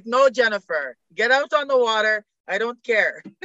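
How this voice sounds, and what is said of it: Imperfect put-on Bulgarian accent. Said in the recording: “My coach was Bulgarian. So my accent's a little off”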